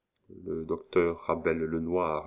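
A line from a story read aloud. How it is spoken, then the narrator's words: Murmured. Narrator (French): murmura Léon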